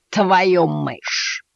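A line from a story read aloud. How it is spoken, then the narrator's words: Cat growling. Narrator (Russian): зарычал кот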